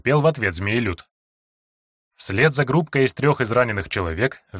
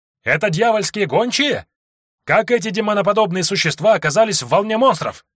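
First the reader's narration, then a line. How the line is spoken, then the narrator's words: Shouting. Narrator (Russian): выкрикнул кто-то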